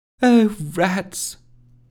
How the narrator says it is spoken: sighed Rusty to herself

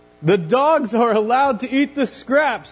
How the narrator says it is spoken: he shouted

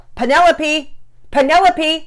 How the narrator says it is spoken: Daddy Peters yelled

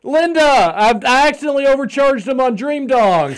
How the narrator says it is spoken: screaming

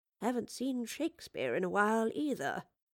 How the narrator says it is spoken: muttered the Professor in a low voice

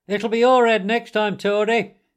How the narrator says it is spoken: they called out to him

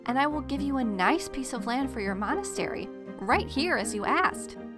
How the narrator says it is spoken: pleaded

